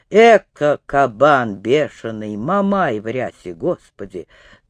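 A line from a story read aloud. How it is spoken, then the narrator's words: Flustered muttering. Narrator (Russian): Петелим, как ошпаренный, не нашелся, что отвечать, и только бормотал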